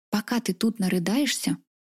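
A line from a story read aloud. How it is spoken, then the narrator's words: Tender tone. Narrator (Russian): продолжила все тем же ласковым тоном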